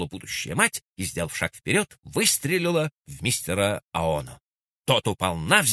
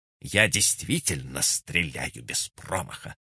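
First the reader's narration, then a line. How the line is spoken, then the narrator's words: Through clenched teeth. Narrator (Russian): процедила она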